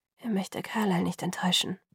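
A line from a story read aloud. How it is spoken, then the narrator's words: Murmur. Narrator (German): murmelte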